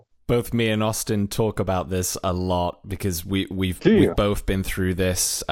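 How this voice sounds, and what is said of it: British accent. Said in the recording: “if you haven't gathered from my accent, originally from Britain”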